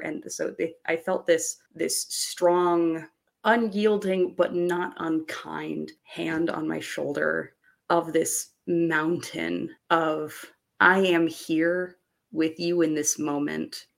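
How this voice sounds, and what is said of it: Emotional, choked-up voice. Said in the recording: “I'm getting a little choked up about it, even out of character, even now”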